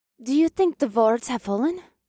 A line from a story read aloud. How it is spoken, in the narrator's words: Revna gasped